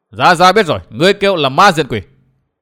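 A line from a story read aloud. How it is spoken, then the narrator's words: Shout. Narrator (Vietnamese): Phong Lôi Thần Hùng Phi quát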